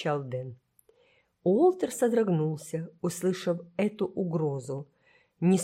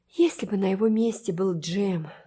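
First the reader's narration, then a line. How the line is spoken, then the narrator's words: Sighing. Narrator (Russian): вздохнула она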